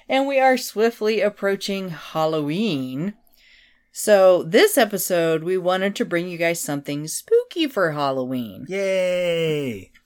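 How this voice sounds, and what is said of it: Nasal, congested voice from illness. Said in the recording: “forgive my voice, I have been sick. This is the best I've sounded in a few days ... I'm still kind of nasally.”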